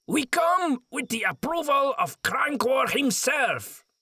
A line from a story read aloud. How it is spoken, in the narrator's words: he called out in his hoarse voice